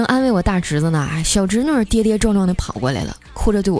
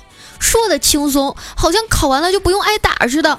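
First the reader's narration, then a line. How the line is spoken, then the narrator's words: Roaring, disdainful. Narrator (Chinese): 他白了我一眼啊，大吼道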